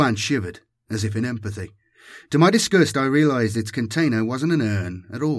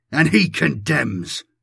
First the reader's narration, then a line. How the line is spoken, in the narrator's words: I bellowed